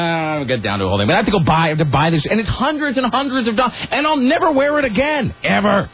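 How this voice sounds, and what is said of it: Usual voice. Nothing is said of it.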